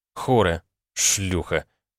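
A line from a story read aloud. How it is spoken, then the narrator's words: Angry cursing. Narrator (Russian): зло выругался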